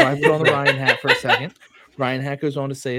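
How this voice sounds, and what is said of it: Usual voice. Nothing is said of it.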